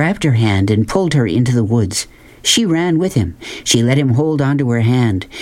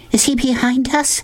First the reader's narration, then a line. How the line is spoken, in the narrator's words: Sistine asked breathlessly